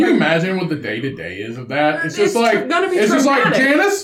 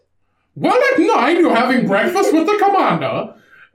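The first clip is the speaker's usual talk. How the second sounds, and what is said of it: Put-on German accent. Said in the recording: “German Karen. ... No, you gotta speak with an accent.”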